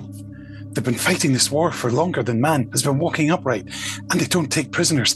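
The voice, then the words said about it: Bad Fifth Doctor impression, breathless. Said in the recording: “my very bad Fifth Doctor impression there, out of breath by the end of it”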